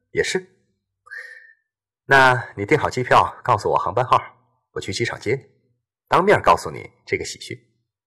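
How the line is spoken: Laughing over the phone. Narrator (Chinese): 冯芬的笑声

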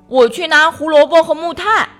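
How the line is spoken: Calling out. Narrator (Chinese): 跳跳叫道

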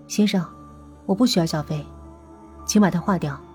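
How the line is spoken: Flat, indifferent. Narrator (Chinese): 淡淡的说

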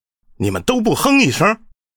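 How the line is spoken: Snorting, through gritted teeth. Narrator (Chinese): 丁局长哼了一声，咬牙道

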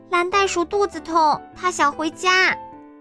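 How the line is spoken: Shouting. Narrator (Chinese): 丽丽大叫

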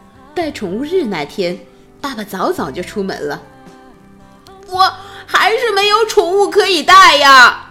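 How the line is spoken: Shouting. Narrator (Chinese): 赫伯特大叫着

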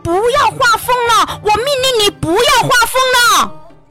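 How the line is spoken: Drenched, shouting repeatedly. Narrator (Chinese): 皇帝被海水打得全身湿漉漉的，不住的叫喊

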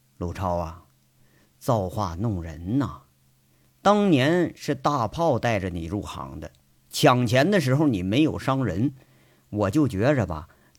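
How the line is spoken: Slow, measured. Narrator (Chinese): 杨伟缓缓的说着

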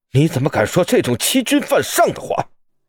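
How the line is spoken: Frightened low scolding. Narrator (Chinese): 邱景燕却又被吓着了，低声的呵斥

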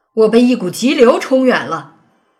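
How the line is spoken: Shouting. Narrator (Chinese): 兔子冲着老虎叫道

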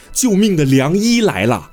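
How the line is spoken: Shouting. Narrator (Chinese): 喊出了这一句

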